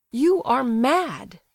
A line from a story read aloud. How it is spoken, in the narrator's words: he cried, indignantly